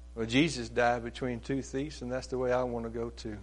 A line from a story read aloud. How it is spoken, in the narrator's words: The old preacher mustered up his strength and then said weakly